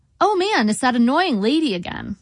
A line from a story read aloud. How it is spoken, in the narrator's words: I said brightly, trying to defuse the situation